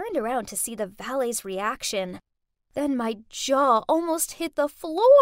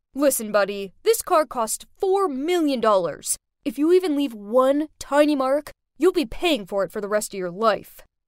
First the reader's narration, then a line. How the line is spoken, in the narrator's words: Brent was so rude to him, he shouted at him and said